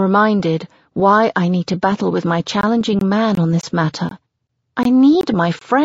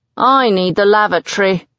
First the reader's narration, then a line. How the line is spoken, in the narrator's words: Tom grumbles